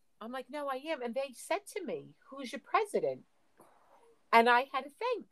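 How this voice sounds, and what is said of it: Thick Staten Island New York accent. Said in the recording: “I must have the thickest accent out of everybody here outside of an English person... Staten Island... New York”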